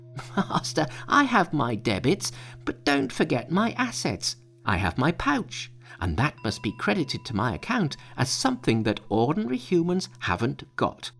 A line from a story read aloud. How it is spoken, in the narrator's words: Monkey laughed, saying